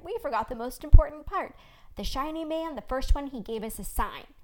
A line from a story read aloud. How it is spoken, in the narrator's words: Blue Shawl said loudly